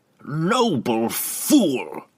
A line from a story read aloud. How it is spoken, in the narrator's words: Matron Benray snapped suddenly